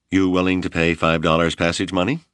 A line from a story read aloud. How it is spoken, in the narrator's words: Hawksworth asked